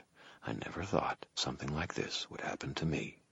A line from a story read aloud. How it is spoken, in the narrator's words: I muttered